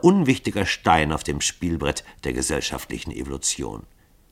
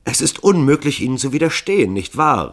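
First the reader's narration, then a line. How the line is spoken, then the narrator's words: Triumphant call. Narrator (German): rief Hall frohlockend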